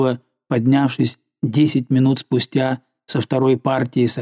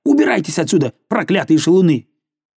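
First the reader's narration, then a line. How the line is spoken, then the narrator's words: Angry woman shouting. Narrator (Russian): Забыв о своем притворном горе, она напустилась на них, сердито крича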